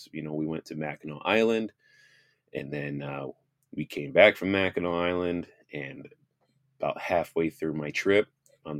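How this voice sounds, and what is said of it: Weak, strained voice. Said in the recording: “as you can tell, my voice is still a little not there... random fits of coughing”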